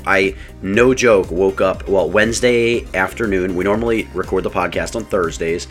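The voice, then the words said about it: Slightly rough, recovering voice. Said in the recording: “My voice isn't perfect. ... my voice is still a little off”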